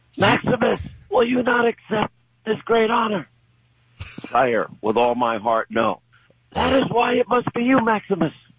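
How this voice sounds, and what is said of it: Imitates movie characters' voices. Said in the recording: “That's my best imitation.”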